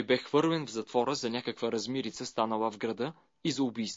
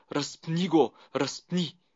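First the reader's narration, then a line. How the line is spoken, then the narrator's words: Crowd shouting. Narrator (Bulgarian): те крещяха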